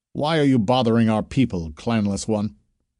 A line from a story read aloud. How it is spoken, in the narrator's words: spoke No Fear sharply